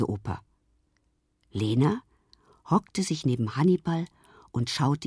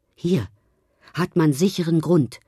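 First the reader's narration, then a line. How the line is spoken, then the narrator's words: Calling out. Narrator (German): rief er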